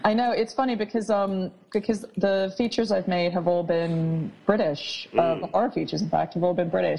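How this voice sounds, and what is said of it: Non-British accent. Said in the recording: “people might have guessed from your accent you're not British”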